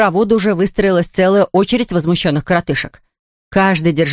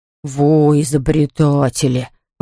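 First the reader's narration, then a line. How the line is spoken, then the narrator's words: Grumbling. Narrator (Russian): ворчал, конечно же, Ворчун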